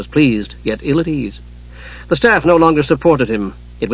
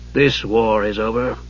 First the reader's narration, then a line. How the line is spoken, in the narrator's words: Raistlin added dryly